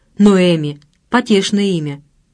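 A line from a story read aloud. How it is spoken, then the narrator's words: Snorting. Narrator (Russian): фыркнул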